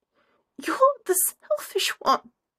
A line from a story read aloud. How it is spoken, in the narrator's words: wheezes, almost enjoying